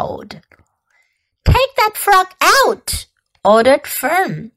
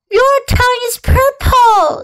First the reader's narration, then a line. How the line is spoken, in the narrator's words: screamed Fern